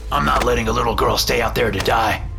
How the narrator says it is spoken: Roger growled

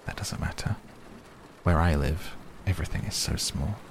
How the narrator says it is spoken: the little prince said earnestly

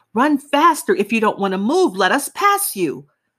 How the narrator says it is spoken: The man in the back of me was screaming

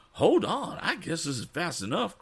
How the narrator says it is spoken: cried Mr

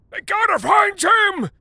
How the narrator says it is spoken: shouted the white guy

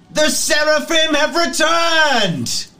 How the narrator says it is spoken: at the top of his lungs screams out

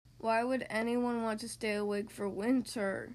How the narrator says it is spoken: grumbled Tortoise

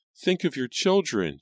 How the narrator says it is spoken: Jane cried

